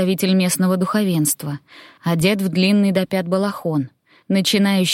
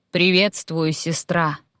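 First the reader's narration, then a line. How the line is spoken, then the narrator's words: Imposing bass. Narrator (Russian): внушительным басом произнес сводный брат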